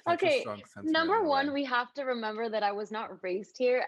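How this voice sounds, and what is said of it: American accent. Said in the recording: “my accent is super American ... your accent sometimes is ... British”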